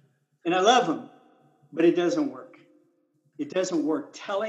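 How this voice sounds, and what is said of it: Usual voice. Nothing is said of it.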